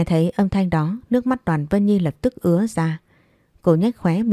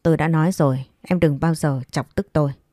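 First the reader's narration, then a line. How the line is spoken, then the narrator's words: Cold voice. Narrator (Vietnamese): anh nói với giọng lạnh lùng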